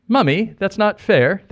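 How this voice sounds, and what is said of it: Put-on British accent. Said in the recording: “That's my British accent.”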